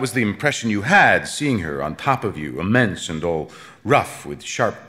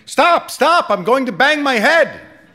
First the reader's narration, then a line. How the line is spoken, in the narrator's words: The man at the top of the ladder, as the boat approached the moon, would become scared and start shouting